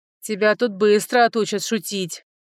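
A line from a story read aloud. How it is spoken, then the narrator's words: Barking. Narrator (Russian): рявкнул граф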